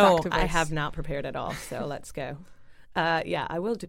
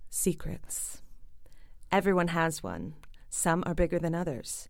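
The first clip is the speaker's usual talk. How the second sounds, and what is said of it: Dramatic actor-style reading voice. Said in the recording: “put on my best actor voice ... very dramatic”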